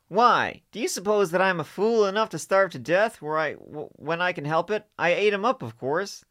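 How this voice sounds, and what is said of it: Stupid-sounding character voice. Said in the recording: “give him a stupid voice ... He should have, like, a stupid voice”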